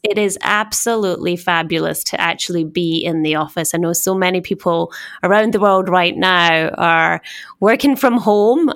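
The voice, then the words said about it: Scottish accent. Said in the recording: “as you can tell by my accent being Scottish”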